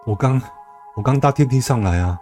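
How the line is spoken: Breathless. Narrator (Chinese): 边喘着气说

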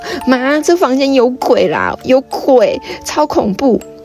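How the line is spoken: Wailing while crying. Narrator (Chinese): 直接大哭，一边哭一边跟我妈说

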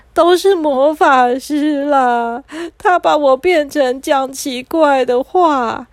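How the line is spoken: Crying while speaking. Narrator (Chinese): 阿切一边哭一边说

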